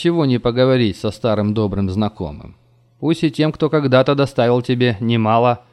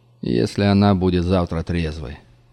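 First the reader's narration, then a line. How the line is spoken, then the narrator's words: Sigh. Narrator (Russian): вздохнул Карс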